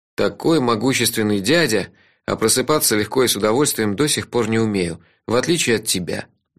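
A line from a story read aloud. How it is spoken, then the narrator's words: Gloomy. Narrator (Russian): мрачно сказал я Нуменориху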